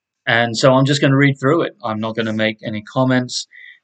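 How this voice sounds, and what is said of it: English accent with mixed influences. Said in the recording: “Having grown up in the south of England around several Americans ... and then spent time in Northern Ireland and now living here in the United States, my accent may not always seem entirely English, but that is my heritage”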